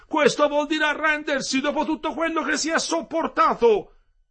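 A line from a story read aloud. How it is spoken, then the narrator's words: Group shouting. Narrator (Italian): gli gridarono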